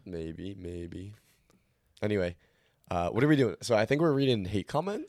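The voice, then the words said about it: Hoarse, nearly lost voice. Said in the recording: “My voice. I'm like, I've been dead the past few days. ... my voice is gone.”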